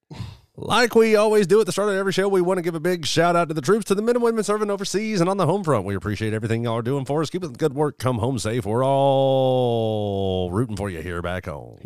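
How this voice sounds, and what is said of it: Radio DJ announcer voice. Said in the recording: “He did that in DJ voice.”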